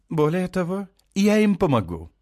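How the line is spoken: Cheerful, slightly too loud. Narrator (Russian): продолжает бодро и чуть громче, чем нужно

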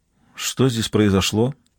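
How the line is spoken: Quiet question. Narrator (Russian): тихо спросила

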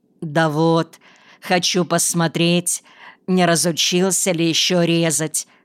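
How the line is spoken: Plain. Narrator (Russian): ответил он

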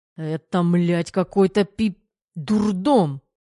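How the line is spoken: Muffled growl. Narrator (Russian): разобрала Тамара приглушенное рычание Тереха

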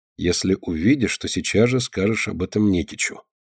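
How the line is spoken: Quiet reply. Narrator (Russian): тихо отвечает ей голос Кости

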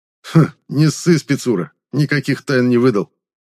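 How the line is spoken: Snort while slurping. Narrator (Russian): хмыкнул блондин, шумно отхлебывая чай

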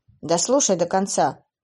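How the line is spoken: Snapping. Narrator (Russian): огрызнулся Уилл

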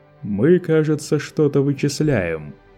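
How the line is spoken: Mocking inquiry. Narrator (Russian): насмешливо поинтересовался Лето

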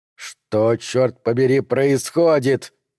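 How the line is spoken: Asked through gritted teeth. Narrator (Russian): спросил сквозь зубы Макмейнус

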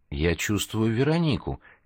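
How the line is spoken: Quiet. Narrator (Russian): тихо сообщил он

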